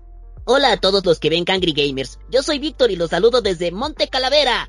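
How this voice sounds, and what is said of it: Cartoon character voice. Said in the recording (Spanish): “hacer la voz de algún personaje”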